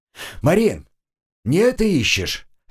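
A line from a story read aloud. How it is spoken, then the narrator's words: Shout. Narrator (Russian): крикнул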